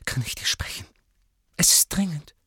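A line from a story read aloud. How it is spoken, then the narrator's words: Strained whisper. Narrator (German): flüsterte angestrengt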